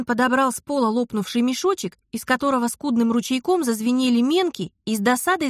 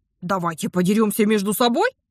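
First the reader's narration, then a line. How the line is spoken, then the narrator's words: Snapping. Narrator (Russian): огрызнулся Кирен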